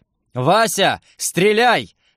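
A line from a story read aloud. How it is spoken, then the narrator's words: Desperate yell. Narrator (Russian): завопил я, чувствуя, как злой рок медленно и с садистским удовольствием затягивает петлю на моей шее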